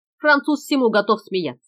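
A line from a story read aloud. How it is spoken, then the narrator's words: Displeased nasal grumble. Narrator (Russian): проворчал с недовольным видом проводник, произнеся слова в нос, как типичный американец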